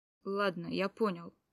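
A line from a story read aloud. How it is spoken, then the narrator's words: Grumble. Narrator (Russian): проворчал он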